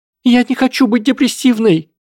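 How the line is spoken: Shouted. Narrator (Russian): закричала Панси

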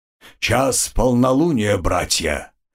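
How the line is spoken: Old man's growl. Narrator (Russian): рыкнул старик

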